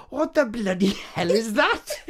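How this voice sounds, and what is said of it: Catherine Zeta-Jones impression, attempted Welsh accent. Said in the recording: “Catherine Zeta-Jones ... she's doing her Welsh accent ... using her Welsh accent ... That's not Welsh ... more Irish”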